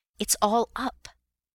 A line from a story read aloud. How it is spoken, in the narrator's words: gasped